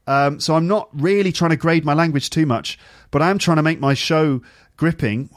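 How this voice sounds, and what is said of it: Clear, engaging presenter voice. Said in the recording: “I'm speaking quite clearly to you, trying to make it engaging to listen to ... I just happen to have a clear voice ... I've just developed this voice and this accent ... I don't try and speak really slowly”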